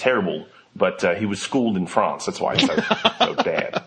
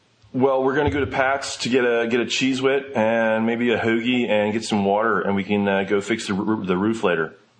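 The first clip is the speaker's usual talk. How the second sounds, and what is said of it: Put-on Philadelphian American accent. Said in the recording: “Let me hear your American accent ... Philadelphian ... say something that's very Philadelphian”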